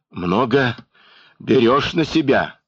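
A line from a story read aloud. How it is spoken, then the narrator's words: Strained, threatening. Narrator (Russian): выдавил, наконец, Евхим с угрозой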